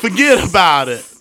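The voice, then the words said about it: Put-on New York accent. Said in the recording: “if I get the accent down, ... New York accent”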